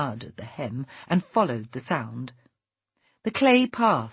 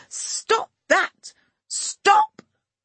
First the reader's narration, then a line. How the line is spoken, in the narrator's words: came out as a shriek